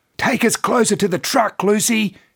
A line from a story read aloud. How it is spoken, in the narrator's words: shouted over the wind and noise